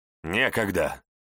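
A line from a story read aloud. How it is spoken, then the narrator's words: Snapping. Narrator (Russian): Огрызнулся я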